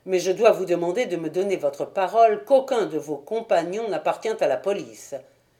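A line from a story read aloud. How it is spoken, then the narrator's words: Brusque. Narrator (French): dit-il d'un ton brusque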